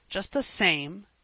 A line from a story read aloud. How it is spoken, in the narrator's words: said Marner, more bitterly than ever